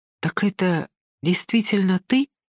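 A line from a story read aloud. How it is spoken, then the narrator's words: Incredulous whisper. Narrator (Russian): прошептала Ася, веря и не веря своим глазам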